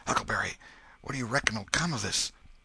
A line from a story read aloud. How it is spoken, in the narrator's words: their pulses slowed down, and Tom whispered